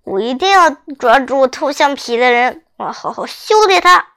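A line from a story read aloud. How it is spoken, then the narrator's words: Through gritted teeth. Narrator (Chinese): 我咬牙切齿地说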